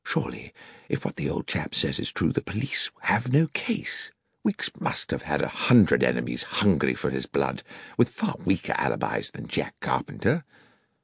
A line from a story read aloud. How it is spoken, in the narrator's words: I said quietly to Holmes